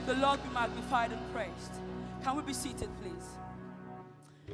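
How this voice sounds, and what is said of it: African-accented English. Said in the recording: “my African accent gets in the way at times”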